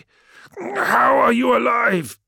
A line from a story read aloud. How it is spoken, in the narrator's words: He gasped